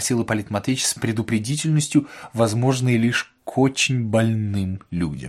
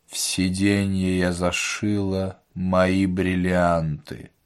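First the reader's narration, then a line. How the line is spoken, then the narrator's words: Wooden indifferent voice. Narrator (Russian): деревянным равнодушным голосом сказала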